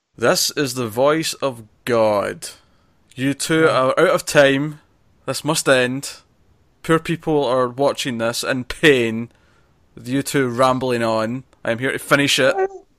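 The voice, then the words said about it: Scottish accent, booming god-like voice. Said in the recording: “because you're Scottish”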